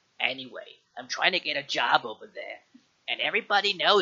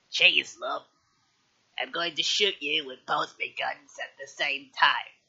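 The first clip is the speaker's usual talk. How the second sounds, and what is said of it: Imitated video game character voice. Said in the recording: “best Tracer impression ... that's perfect. That's spot on.”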